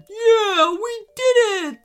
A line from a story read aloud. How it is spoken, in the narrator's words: squealed Scruffy with delight